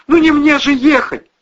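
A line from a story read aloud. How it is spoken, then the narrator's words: Pleading. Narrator (Russian): взмолилась Кристина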